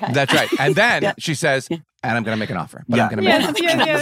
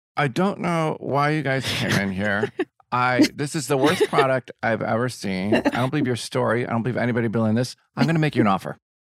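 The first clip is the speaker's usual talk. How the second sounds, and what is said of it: Imitates another person's voice. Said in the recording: “This is my Barbara Corcoran impression.”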